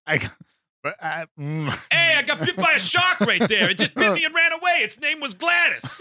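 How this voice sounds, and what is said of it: Put-on Long Island accent. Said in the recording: “like a Long Island accent”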